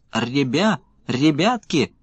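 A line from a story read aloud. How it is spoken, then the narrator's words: Squeaking. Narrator (Russian): запищали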